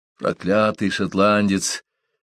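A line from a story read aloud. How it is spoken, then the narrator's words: Through gritted teeth. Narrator (Russian): процедил сквозь зубы Беккер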